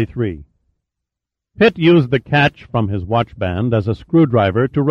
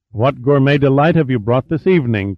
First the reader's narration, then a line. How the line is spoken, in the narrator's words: Pitt inquired cheerfully